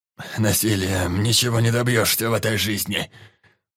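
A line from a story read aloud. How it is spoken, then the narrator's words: Groan through coughing. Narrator (Russian): простонал Мохноног сквозь кашель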